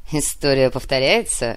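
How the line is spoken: Dry snorting reply. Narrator (Russian): хмыкнул в ответ Нур

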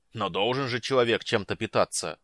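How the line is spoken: Growling. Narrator (Russian): прорычал Люд

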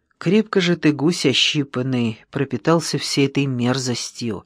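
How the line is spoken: Calm. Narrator (Russian): спокойно проговорил Петров

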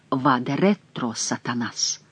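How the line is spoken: Barely audible whisper. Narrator (Russian): Шико чуть слышно прошептал

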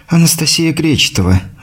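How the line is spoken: Sighing. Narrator (Russian): вздохнула она

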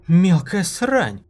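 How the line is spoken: Breathless, almost disbelieving. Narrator (Russian): Выдохнула она почти недоверчиво

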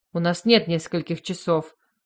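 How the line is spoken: Displeased. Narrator (Russian): заявил недовольным голосом Йос

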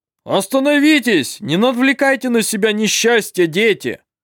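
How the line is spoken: Shouting. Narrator (Russian): Закричал он

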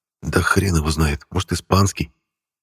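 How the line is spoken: Quiet. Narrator (Russian): Антон тихо сказал

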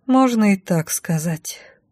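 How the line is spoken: Glum female. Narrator (Russian): уныло отозвалась я

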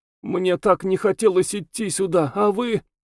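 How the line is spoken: Sobbing speech. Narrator (Russian): Всхлипывая, Алина говорила

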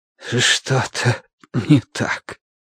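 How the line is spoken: Breathed out. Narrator (Russian): выдохнул Бадри

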